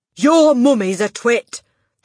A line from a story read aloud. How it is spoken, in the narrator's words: the Trunchbull bellowed